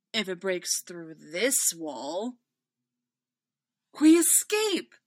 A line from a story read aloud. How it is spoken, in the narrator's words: Hera cries